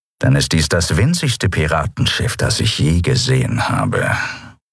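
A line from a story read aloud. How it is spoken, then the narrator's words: Grumbling. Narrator (German): brummte Chasu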